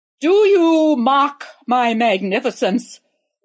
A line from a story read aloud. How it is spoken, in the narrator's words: roared the emperor in his most imperious voice